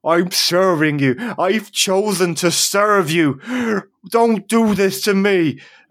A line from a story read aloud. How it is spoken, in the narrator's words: screams back